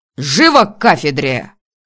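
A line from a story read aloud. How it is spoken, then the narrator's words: Barking. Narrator (Russian): как рявкнул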